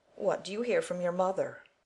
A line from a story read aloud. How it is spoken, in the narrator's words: asked the old lady gruffly